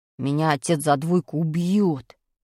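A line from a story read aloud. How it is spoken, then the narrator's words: Groaned. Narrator (Russian): простонал Пашка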